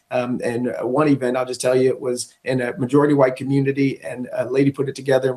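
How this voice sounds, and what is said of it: Hoarse, strained voice. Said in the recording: “I'm losing my voice right now because we had 15 events in the last 3 days.”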